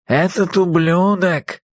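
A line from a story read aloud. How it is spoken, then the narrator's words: Hissing, nasal voice. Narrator (Russian): прошипел сломанный нос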